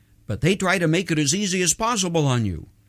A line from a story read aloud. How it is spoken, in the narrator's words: trying to minimize the issue quickly, he added